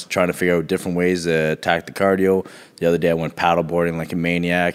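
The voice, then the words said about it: Slightly raspy voice. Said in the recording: “my voice is a little raspy ... My throat hurts so bad”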